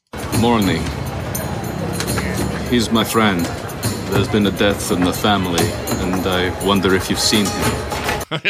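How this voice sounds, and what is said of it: Mediocre put-on Russian accent. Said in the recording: “Russian accent ... It's not very good. It's okay. ... he's hiding his New Zealand British accent pretty well”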